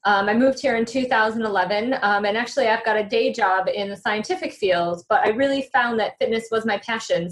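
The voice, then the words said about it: American accent. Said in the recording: “As you can tell from my accent, I'm not from England. I'm actually from America.”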